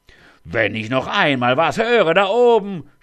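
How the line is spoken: Shout from below. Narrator (German): schrie es von unten

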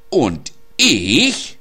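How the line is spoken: Shouted angrily. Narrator (German): rief Mona wütend

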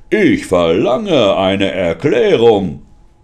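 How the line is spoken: Roaring. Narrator (German): brüllte er

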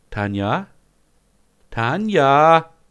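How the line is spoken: Calling out. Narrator (German): ruft

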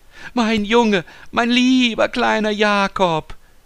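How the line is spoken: Exclaiming. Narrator (German): rief sie aus

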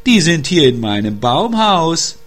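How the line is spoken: Called out. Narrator (German): rief der Wunschhase

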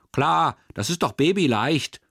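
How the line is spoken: Called. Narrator (German): ruft Aurelia

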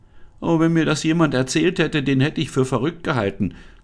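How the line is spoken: Trembling voice. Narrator (German): sagte Anne mit bebender Stimme

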